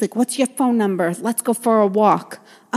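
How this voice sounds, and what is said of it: Bad put-on New Jersey accent. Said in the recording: “that was the worst New Jersey accent ever”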